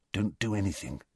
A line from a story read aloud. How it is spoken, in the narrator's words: Harry muttered